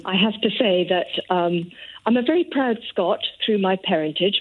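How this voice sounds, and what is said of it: English accent. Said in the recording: “as soon as you listen to me, you'll think she sounds English”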